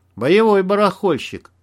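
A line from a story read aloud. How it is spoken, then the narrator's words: Respectful grunt. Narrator (Russian): уважительно хмыкнул Макс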